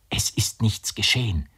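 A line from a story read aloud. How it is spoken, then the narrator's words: Whisper. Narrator (German): flüsterte sie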